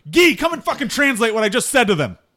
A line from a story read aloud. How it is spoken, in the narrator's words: yell, and I say